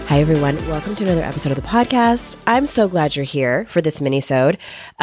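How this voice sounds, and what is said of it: Rough, congested sick-sounding voice. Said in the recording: “Please forgive the voice. And if there's any ASMR like spit stuff, my sincerest apologies... I am getting over a cold and it's in the productive state.”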